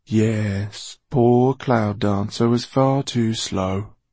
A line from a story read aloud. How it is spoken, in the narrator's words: purred Basta